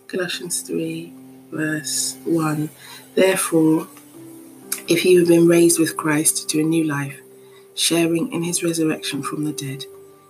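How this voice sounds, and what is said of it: Quiet, hushed speaking voice. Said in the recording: “my voice is a little bit quiet”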